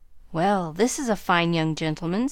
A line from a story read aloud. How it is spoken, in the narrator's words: said Mr